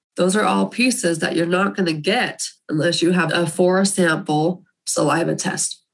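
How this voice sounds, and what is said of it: Hoarse, nearly lost voice. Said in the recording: “my voice is about gone”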